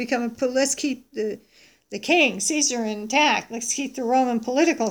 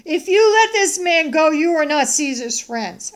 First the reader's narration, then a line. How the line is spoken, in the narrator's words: the Jews cried out, saying